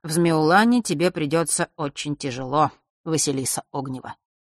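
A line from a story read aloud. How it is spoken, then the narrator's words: Bored tone. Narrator (Russian): произнес он все тем же скучающим тоном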